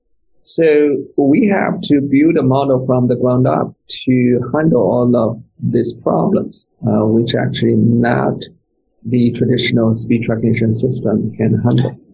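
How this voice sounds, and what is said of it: Chinese accent. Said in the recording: “I came from China, so I still have my special accent.”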